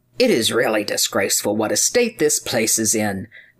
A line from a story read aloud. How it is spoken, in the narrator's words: muttered he to himself